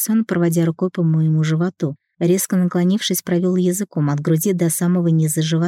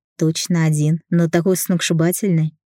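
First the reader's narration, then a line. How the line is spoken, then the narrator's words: Happy laughter. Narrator (Russian): Я счастливо рассмеялась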